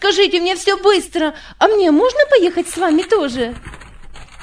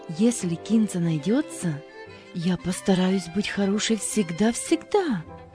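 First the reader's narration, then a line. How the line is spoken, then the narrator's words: Remorseful whisper. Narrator (Russian): раскаянным голосом Дженни прошептала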